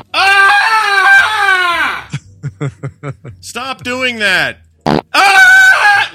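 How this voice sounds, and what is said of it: Acted-out shouting during a fight. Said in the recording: “Here's my impression of this fight.”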